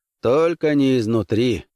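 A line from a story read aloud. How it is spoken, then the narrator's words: Grim reply. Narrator (Russian): мрачно ответил Хант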